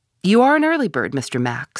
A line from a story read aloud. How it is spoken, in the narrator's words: said he